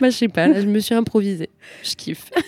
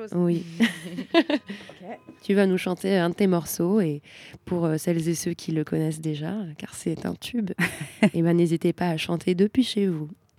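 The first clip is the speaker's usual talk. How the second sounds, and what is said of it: Smooth, suave radio-host voice. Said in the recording (French): “On se croirait sur TSF Jazz avec ta voix suave, là.”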